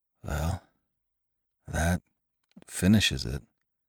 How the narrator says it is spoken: he muttered brokenly

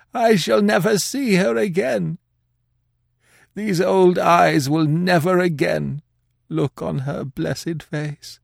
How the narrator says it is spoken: The old man ... sobbed out

